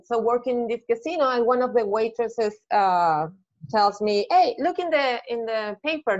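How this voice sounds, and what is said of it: Spanish-accented English. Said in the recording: “I still have the accent ... thinking in Spanish”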